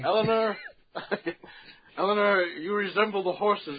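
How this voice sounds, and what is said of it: Imitates another person's voice. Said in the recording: “That was a quality impersonation of FDR. ... Do a little bit more FDR for me.”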